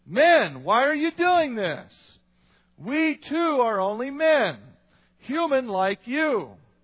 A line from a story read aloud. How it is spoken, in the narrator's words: tore their clothes and rushed into the crowd shouting